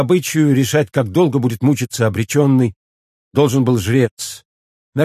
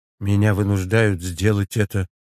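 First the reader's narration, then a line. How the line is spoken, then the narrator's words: Quiet, private. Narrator (Russian): сказал правитель тихо, так, чтобы его слышал только жрец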